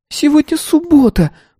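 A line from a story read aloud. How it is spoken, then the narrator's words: Squeaky. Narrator (Russian): пропищала я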